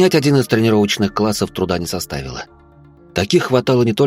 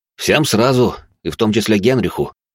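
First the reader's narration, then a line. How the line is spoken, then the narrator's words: Wry snort. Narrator (Russian): хмыкнул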